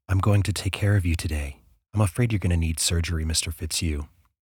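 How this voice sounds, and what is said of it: Lilting female character voice. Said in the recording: “in her lilting voice”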